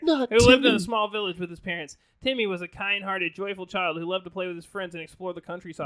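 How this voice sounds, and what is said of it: Reading aloud very fast. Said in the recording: “I'm just gonna read it really fast. ... You're losing a lot of the dramatic effect here from my fast reading”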